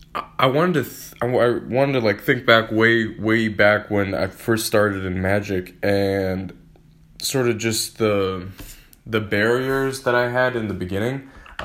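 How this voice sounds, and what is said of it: Hoarse, strained voice. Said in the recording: “I've been losing my voice the last couple days, so I'm going to be clearing my throat a lot throughout this episode”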